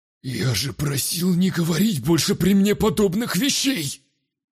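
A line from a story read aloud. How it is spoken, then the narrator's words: Hoarse nervous wheeze. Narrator (Russian): Сипло прохрипел здоровяк, нервозно оглядываясь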